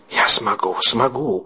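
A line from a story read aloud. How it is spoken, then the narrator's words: Nervous whisper. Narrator (Russian): нервно шептал то ли себе, то ли Мэтью Дэниел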